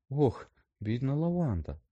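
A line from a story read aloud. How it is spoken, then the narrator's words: Sigh. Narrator (Ukrainian): зітхнула Герміона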